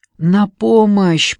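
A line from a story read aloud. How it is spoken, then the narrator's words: Hoarse cry. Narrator (Russian): прохрипела я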